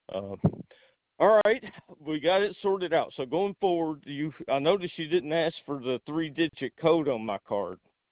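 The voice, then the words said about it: Speaks with a noticeable accent. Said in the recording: “I know I got an accent”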